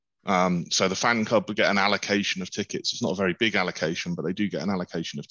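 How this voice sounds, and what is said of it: British accent. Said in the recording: “as you can tell by the accent, I will have the UK perspective”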